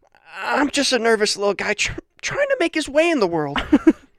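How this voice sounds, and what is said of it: Nervous little guy voice. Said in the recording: “That's how I'm going to read. That's what his voice is like ... in my head.”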